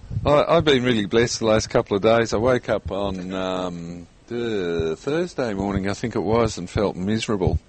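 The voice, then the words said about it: Croaky, somewhat dull voice. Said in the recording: “My voice is a bit croaky today, so if I sound a bit dull”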